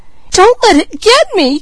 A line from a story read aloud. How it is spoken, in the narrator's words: cried Peaches